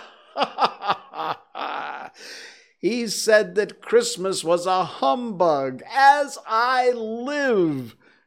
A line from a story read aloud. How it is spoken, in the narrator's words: cried Scrooge's nephew